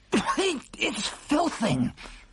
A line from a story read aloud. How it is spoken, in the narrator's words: He spluttered, speaking with his mouth full